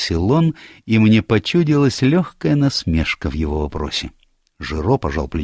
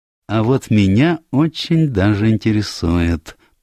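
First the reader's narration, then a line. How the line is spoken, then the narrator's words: Purring. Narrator (Russian): промурлыкал Пуаро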